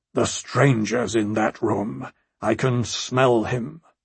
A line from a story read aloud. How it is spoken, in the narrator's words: the Lord of Storm's End growled